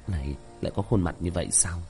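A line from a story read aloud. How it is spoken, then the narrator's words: Low muttering. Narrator (Vietnamese): Tiểu thất thấp giọng lẩm bẩm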